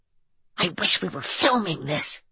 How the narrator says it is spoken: she whispered

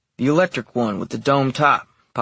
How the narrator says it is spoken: Pop said curtly

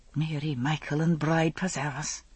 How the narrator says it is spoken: under her breath

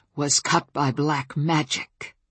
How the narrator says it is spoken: Bran growled

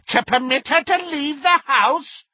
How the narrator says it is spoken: cackled Muriel

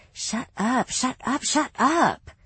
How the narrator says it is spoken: she groaned

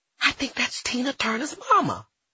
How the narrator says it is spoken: I stage whispered to my friend

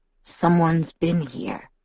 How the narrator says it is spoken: he murmured in my ear

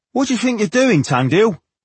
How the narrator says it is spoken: the waiting man demanded impatiently

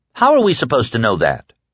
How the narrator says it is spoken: Harold snapped

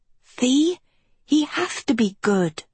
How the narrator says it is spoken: Kiko whispered to Agatha

